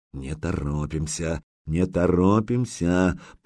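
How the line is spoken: Muttered. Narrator (Russian): пробормотал Загреба

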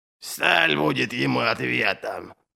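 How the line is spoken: Hoarse wheeze. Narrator (Russian): прохрипел Верховный Король

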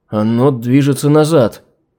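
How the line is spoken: Uncertain. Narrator (Russian): неуверенно произнес руководитель инженерной команды

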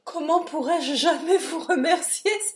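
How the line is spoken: Exclaiming. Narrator (French): s'écria

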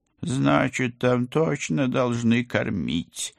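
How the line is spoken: Gloomy conclusion. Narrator (Russian): мрачно заключил кот

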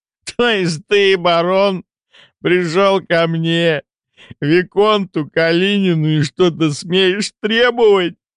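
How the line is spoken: Breathless after laughing. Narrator (Russian): уточнил парень, наконец отсмеявшись и переведя дух

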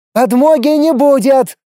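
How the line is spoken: Shouting woman. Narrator (Russian): крикнула главная лемийка

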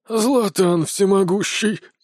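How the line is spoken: Breathless exhale. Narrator (Russian): выдохнул Брон

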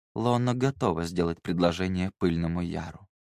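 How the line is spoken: Quiet. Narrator (Russian): тихо произнесла

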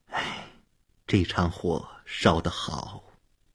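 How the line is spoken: Low, unshaken. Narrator (Chinese): 阿尔文太太并没有为这场突然发生的火灾感到震惊，反而低声说

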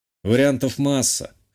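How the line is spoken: Snorting remark. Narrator (Russian): хмыкнул я

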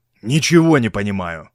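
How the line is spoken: Grumbled. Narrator (Russian): проворчал Стилтон

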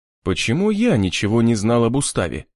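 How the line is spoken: Plain. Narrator (Russian): спросил я Киру

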